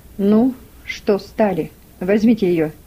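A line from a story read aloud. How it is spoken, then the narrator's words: Dry. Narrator (Russian): сухо сказал Гейли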